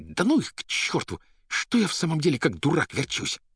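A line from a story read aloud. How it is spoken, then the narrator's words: Angry hiss. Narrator (Russian): прошипев почему-то со злобой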